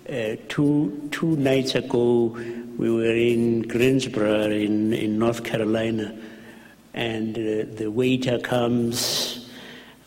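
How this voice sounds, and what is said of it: Strange, non-American accent. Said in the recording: “You have a strange accent. ... Are you American? ... this is Archbishop Tutu, you know, that kind of voice.”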